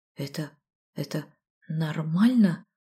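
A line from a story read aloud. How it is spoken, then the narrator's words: Hoarse question. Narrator (Russian): осипшим голосом спросила я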